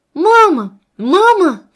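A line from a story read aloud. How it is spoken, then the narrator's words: Screaming. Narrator (Russian): кричала она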